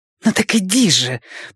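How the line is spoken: Hissed. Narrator (Russian): прошипела женщина

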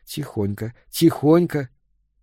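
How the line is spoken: Whispered. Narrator (Russian): прошептал ей

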